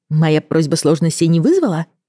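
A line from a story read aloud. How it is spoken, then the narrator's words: Cheerful remark. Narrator (Russian): бодро заметила я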